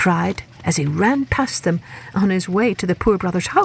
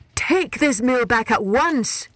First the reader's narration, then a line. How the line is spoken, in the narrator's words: he begged